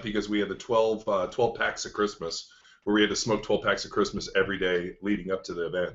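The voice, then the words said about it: Voice sounds worn and beat up. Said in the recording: “my voice is a little beat up”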